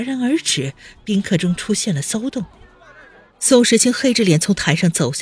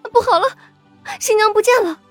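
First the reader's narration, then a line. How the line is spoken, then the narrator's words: Anxious shout. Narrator (Chinese): 化妆师焦急的大喊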